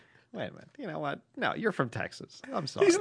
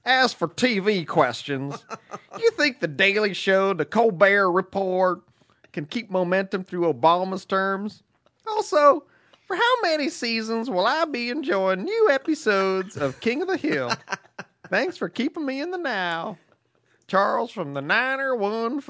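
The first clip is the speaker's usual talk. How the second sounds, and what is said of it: Put-on Texan redneck accent. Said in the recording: “we'll have to go with the redneck accent. ... What was that, your Ross Perot? ... Well done. ... It was a Texan.”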